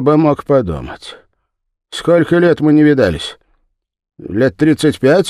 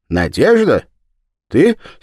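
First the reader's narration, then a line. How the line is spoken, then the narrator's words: Hurried. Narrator (Russian): сказал он торопливо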